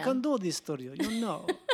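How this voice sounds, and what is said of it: Dracula character voice. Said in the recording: “I was actually doing an impression of Dracula.”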